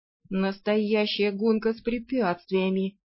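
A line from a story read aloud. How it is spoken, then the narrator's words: Vampire moaning. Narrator (Russian): стонал вампир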